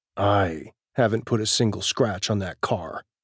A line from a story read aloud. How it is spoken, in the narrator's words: Pax growls darkly